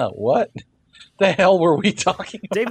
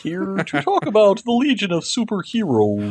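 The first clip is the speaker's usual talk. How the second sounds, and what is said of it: Kermit the Frog impression. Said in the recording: “I thought you kind of sounded like Kermit the Frog, actually.”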